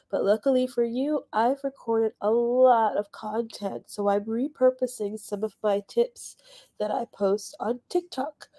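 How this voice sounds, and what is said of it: Sick-sounding voice. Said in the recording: “that nasty C word finally caught up with me. It's my first time having COVID, and I'm sure you can hear it in my voice. ... when my voice is better”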